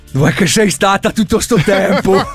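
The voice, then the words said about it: Warm put-on Bergamasco accent. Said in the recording (Italian): “più caldo con accento bergamasco”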